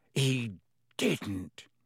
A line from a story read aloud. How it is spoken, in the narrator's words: growled